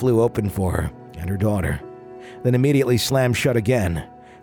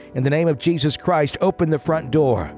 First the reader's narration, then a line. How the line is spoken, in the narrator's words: yelled